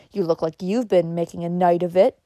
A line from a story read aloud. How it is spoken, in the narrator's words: he said in contemptuous sneer